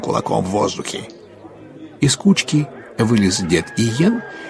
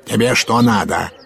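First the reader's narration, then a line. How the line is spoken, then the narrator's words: Barked. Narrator (Russian): гаркнул на него урядник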